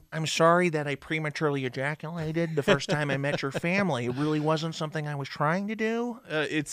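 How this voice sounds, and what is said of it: Poor imitation of another person's voice. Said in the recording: “my shitty Jay Baruchel impression ... Mine was equally as shitty”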